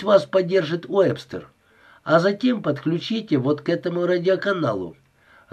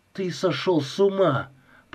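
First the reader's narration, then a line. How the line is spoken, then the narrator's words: Mutter. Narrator (Russian): пробормотал Джонсон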